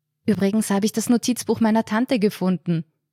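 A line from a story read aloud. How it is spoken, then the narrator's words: Calling out. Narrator (German): rief er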